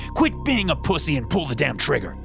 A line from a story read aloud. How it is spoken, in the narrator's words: he yelled